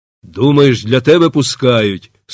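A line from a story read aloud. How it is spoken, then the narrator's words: Stern smirking tone. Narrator (Ukrainian): суворо посміхнувся Степан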